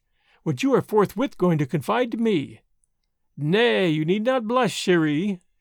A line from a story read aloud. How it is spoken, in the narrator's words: said Marguerite, merrily